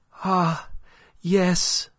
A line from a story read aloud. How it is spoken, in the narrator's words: cried Aline